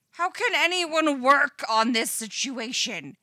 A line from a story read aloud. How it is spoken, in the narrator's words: screams Eddie's panicky internal monologue